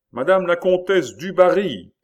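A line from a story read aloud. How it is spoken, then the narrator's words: Usher's announcing shout. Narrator (French): cria l'huissier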